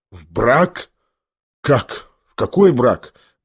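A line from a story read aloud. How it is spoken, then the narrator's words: Stunned muttering. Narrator (Russian): бормотал ошеломленный Гаврила Ардельонович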